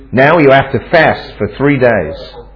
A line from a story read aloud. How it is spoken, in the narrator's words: He angrily rebuked us